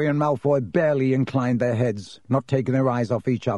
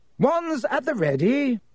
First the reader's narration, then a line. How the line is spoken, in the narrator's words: shouted Lockhart